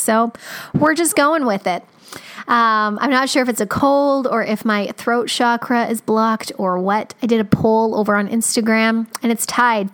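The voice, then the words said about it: Scratchy, slightly rough voice. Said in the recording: “my voice is a little scratchy. I don't feel sick. It's weird, but I woke up and this is what my voice sounds like”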